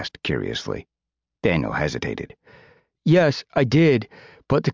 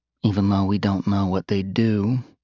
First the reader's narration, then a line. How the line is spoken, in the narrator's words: Regina said coolly